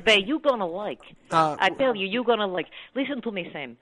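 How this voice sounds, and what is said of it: Put-on Jewish Russian accent. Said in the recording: “You are sounding like you're picking up like a Jewish Russian accent.”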